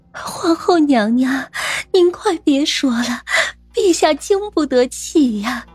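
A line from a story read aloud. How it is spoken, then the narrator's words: Frightened, hurried, crying. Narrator (Chinese): 李贵妃吓了一跳，慌忙哭道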